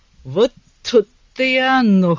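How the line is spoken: Wry snort. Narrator (Russian): хмыкнул он

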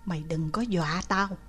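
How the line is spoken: Whisper. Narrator (Vietnamese): Mèo Rừng Bự thì thào

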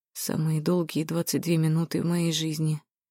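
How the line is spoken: Quiet. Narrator (Russian): тихо сказал Зак

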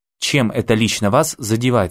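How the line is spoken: Plain. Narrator (Russian): спросил Алекс

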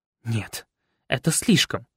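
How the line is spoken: Indignant hiss. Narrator (Russian): возмущенно прошипела Анька

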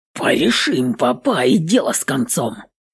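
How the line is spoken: Whisper. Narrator (Russian): Прошептал Пугас

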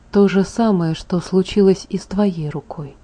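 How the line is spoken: Quiet. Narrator (Russian): тихо ответил Джаспер

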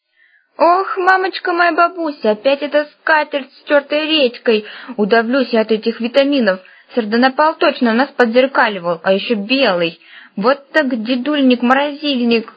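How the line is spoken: Groaning. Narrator (Russian): застонал баб-ягун

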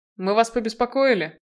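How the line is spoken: Grim chuckle. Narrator (Russian): мрачно усмехнулся Намад

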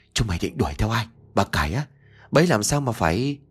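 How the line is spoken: Tense trembling voice. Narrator (Vietnamese): Mặt của ông đanh lại, giọng run rẩy

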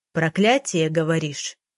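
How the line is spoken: Low, muffled voice. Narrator (Russian): Ее голос прозвучал низко и глухо

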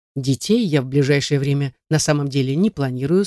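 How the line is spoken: Plain. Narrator (Russian): сказал

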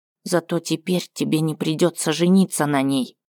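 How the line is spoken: Quiet. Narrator (Russian): тихо высказал свое мнение Скарт

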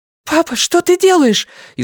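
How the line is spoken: Frightened question. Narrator (Russian): испуганно спросила Люми

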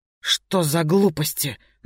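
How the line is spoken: Forced out, reluctant. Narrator (Russian): наконец выдавил Воробей

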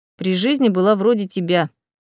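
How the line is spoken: Snorting. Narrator (Russian): фыркнул Инсолье

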